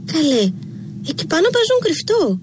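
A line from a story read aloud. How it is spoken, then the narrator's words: Shouting. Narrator (Greek): φώναξε η Ραλού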